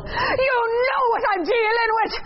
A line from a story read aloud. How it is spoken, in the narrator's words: yelling, not caring that I'm making a wholly mortifying show of myself